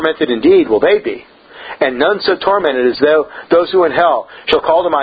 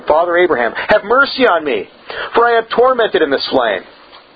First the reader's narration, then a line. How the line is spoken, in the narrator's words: lifted up his eyes, being in torment, and cried